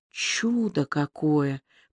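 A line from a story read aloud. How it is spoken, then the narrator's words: Whisper. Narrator (Russian): прошептал он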